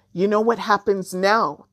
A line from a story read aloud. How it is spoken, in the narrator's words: Jumbie shouted across the river